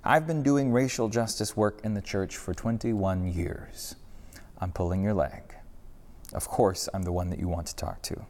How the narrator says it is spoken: said calmly

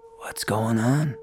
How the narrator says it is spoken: Lonnie asked weakly

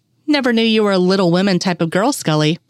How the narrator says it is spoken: he said

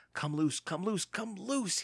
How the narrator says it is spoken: he begged

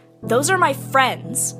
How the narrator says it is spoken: the granddaughter snapped

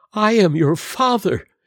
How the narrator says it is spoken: cried he

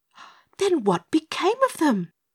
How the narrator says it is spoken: gasped Dorothy

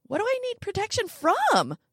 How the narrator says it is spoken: I squealed

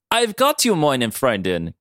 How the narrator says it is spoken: Kirk called out

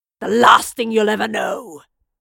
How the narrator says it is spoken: he snarled

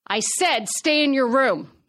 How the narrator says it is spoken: yelled

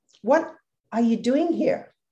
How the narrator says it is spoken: I said

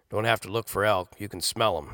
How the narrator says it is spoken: he said in his gravelly papa voice

